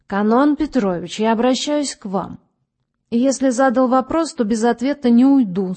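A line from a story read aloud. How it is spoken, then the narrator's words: Stern. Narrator (Russian): строго сказал доктор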